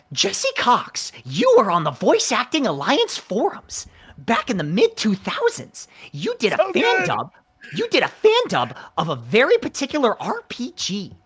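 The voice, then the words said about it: Imitates another person's voice. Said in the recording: “That's such a good impression.”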